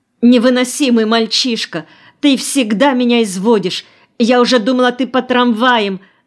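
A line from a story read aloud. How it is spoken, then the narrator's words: Immediate exasperated shout. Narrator (Russian): закричала тотчас же Нина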